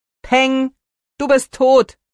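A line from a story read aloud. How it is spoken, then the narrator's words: Calling out. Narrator (German): rief Lukas hinter seinem Bruder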